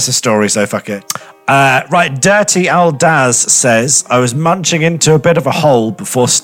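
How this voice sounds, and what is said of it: Usual voice. Nothing is said of it.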